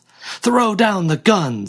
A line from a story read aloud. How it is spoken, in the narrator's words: he yelled